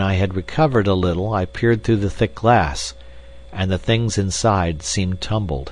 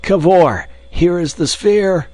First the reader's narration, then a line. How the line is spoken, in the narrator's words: panting, and trying vainly to shout